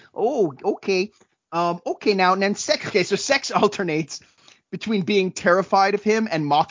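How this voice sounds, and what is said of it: Usual voice. Nothing is said of it.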